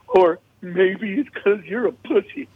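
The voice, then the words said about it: Impression of another man. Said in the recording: “I'm going to do the impression of Marcus. So be ready for it.”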